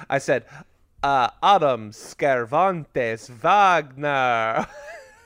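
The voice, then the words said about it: Put-on Transylvanian accent. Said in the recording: “I said Wagner in a Transylvanian accent ... It did sound bad”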